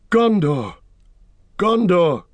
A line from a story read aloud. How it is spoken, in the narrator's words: cried Aragorn